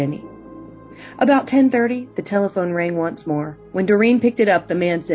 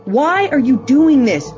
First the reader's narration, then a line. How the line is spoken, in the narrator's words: Doreen screamed